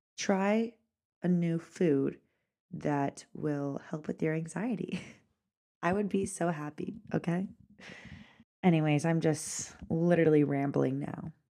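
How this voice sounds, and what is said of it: Stuffy-nosed, slightly raspy voice. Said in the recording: “I am kind of forming a cold or something. My nose is stuffy, so sorry if I sounded a little raspy”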